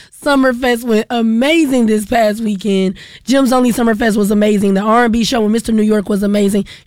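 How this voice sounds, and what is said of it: Hoarse, fading voice. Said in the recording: “As you can hear, because I'm losing my voice,”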